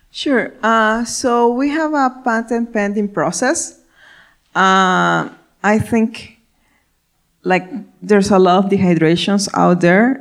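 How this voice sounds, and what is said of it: Spanish-speaking Ecuadorian accent. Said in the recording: “as you can hear my accent, I'm from I'm Spanish speaking, I'm from Ecuador”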